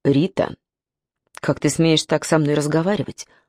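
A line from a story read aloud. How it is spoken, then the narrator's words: Cold. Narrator (Russian): холодно сказал он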